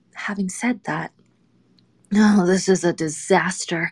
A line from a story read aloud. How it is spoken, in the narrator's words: I grumbled out loud to myself